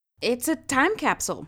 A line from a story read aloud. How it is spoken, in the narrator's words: said Maya loudly